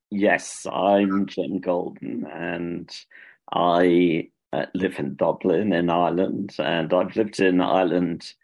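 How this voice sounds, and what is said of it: British accent. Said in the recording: “I'm not Irish, as you could probably tell from my accent. It's a British one.”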